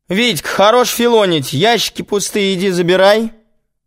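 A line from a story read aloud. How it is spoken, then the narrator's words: Shouting. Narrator (Russian): крикнула еще раз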